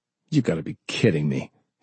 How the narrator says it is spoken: he snapped

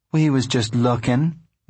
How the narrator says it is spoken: Ruthie said

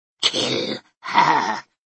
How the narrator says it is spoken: Dvorah hissed

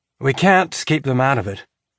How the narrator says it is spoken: he sighed

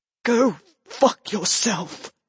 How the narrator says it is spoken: she whispered weakly

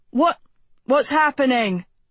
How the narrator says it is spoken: Javel shouted

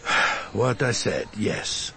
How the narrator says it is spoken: I sighed

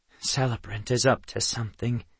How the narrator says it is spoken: Kendra murmured

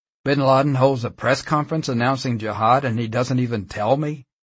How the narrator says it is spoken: exclaimed

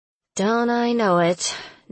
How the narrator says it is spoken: Noah said dryly

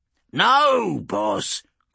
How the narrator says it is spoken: Grimtooth exclaimed

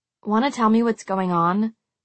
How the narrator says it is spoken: I said in a slightly more hostile tone

